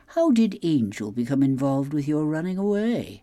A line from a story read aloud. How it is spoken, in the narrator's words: I purred